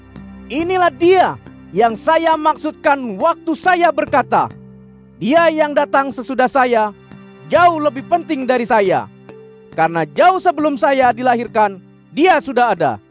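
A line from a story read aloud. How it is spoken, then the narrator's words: Loud voice. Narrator (Indonesian): dia berkata dengan suara keras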